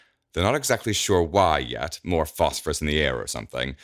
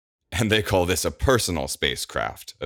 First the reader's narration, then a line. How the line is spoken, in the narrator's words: Evander scoffs